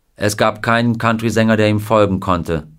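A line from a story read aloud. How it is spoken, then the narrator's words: Plain. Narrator (German): sagte Bob Neal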